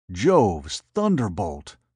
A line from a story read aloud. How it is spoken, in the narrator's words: Scipio gasped